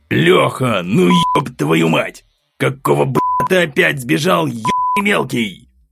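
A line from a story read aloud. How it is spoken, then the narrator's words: Growling. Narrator (Russian): Зарычал Глеб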